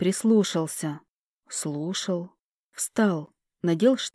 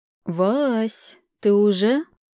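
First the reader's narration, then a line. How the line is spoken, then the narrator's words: Slow, yawning speech. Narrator (Russian): Она старалась говорить медленно и зевнула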